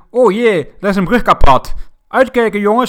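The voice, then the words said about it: Put-on Drents accent. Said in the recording (Dutch): “met zo'n Drents accent”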